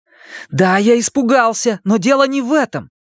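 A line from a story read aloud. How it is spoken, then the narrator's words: Heated exclamation. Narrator (Russian): с жаром воскликнул Стэн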